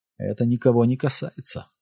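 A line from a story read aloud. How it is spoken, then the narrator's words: Quiet. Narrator (Russian): тихо произнес Аарон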